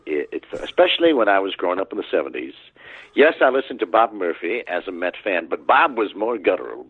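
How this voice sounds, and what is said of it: Generic baseball announcer voice with twang. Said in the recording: “I'll answer as Jim Brockmire, because it's hard to talk about this voice without actually talking in this voice ... I call it the generic baseball announcer voice ... that sort of professional announcer twang”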